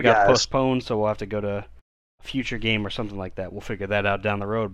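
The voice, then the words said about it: Slightly hoarse, strained voice. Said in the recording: “so my voice is a little shot here”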